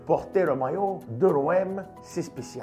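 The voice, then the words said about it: Put-on accent. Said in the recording (French): “Je sais pas pourquoi j'ai fait un accent.”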